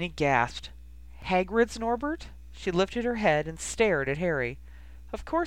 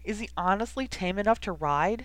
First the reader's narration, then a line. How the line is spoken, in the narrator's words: Jenny asked anxiously